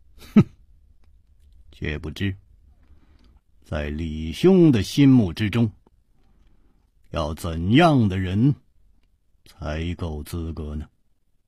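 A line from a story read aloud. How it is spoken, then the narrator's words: Calm, smiling. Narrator (Chinese): 楚留香声色不动，微笑着说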